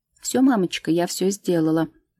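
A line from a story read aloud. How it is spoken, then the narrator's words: Daughter's cheerful reply. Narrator (Russian): бодро отвечает дочка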